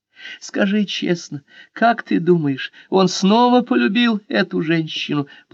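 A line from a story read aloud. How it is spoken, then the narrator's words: Tearful question. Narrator (Russian): плачущим голосом спросила она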